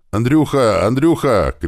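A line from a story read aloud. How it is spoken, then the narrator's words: Shouting. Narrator (Russian): кричал Леший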